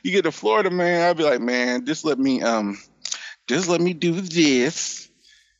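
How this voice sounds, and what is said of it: Sweet nerdy Urkel-like voice. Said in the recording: “do that voice? Like, is that really how you, like? ... You have the sweet Urkel voice.”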